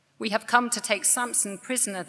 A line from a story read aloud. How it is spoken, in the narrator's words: they answered